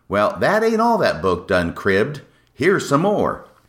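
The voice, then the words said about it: Put-on folksy accent. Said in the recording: “I'm really warming to this accent”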